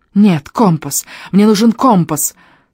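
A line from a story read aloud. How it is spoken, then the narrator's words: Hound rattling off quickly. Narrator (Russian): тараторила гончая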